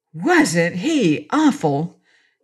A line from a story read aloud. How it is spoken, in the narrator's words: gasped Trot indignantly